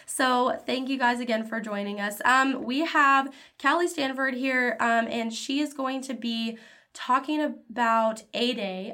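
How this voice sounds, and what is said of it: Congested voice from a cold. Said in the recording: “my voice is a little bit out. I've got a bit of a cold”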